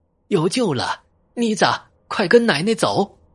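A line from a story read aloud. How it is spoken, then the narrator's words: Excited repeated shouting. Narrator (Chinese): 林大妈这个激动了，连连喊道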